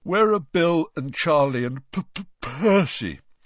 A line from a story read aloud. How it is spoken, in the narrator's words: said George, failing to stifle a huge yawn